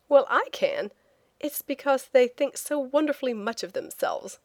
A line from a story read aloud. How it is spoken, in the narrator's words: I said with a laugh